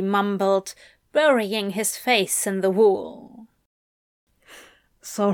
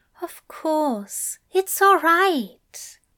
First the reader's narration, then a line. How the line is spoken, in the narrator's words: Aziraphale said soothingly